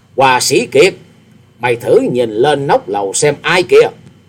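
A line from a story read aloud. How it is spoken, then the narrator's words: Loud laughing voice. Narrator (Vietnamese): ha hả cười to, to tiếng nói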